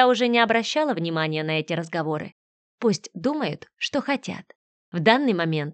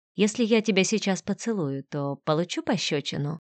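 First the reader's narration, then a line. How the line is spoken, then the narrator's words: Whispered question. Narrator (Russian): шепотом спросил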